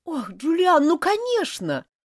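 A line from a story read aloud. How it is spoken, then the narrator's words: Near tears, exclaiming. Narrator (Russian): воскликнула бедная Элизабет, чуть не плача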